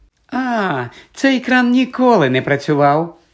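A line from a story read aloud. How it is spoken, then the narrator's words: Cheerful. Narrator (Ukrainian): весело сказала Мірта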